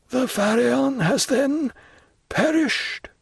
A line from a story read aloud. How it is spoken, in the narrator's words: said Morel in a hoarse voice